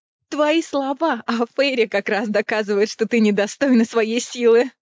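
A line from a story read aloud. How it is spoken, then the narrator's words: Booming laughter. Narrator (Russian): Раскатисто засмеялась Амрена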